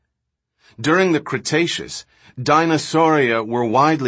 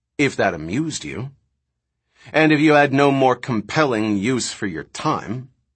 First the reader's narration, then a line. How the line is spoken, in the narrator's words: Malcolm said coldly